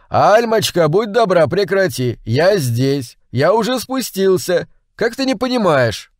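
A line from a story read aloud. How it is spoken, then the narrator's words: Shouted again. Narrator (Russian): я уже во второй раз крикнул ей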